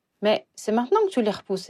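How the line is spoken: Sharp, uneasy consoling exclamation. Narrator (French): exclama Harry, d'un ton vif, mal à l'aise, dans son rôle de consolateur

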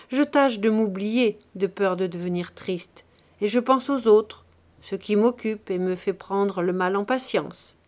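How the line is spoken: Joking tone. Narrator (French): répondit-elle d'un ton de plaisanterie

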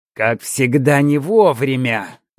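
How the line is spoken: Angry grumble. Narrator (Russian): злобно буркнул Малек

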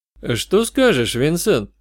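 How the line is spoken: Quiet. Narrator (Russian): спросил я негромко

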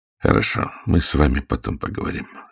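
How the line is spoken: Almost calm. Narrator (Russian): сказал он почти спокойно

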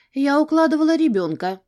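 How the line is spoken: Calm reply. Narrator (Russian): ответила спокойно

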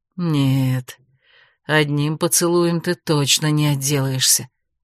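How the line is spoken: Hoarse, against her lips. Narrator (Russian): хрипло произнес он ей в губы

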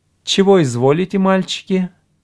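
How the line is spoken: Tender, familiar governess. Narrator (Russian): Нежным голосом, хоть и несколько фамильярно, спросила их гувернантка

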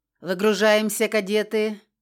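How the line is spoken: Gruff command. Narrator (Russian): отдал приказ Крор, глядящий на нас еще более мрачно, чем обычно

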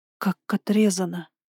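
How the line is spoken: Faint shaken whisper. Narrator (Russian): прошептала, чувствуя, как ноги начинают подкашиваться

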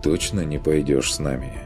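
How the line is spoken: Clarifying question. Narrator (Russian): В последний раз решил уточнить

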